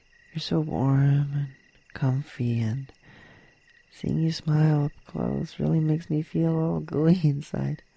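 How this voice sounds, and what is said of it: Soft whisper. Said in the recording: “I'm just whispering, rambling into your ear”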